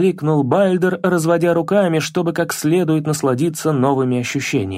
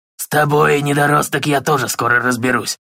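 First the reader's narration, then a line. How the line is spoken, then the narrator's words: Malicious smirk. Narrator (Russian): Злобно усмехнулся Бальдр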